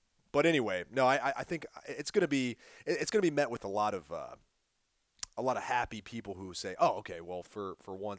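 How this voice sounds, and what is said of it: Hoarse, strained, fading voice. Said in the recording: “I'm losing my voice over here.”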